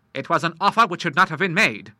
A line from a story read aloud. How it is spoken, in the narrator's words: said the Admiral, sternly